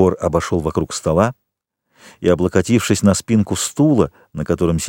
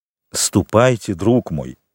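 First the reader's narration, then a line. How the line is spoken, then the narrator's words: Plain. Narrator (Russian): сказал маркиз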